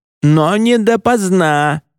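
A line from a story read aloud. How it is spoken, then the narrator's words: Shouted after someone. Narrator (Russian): крикнула ему вслед Лита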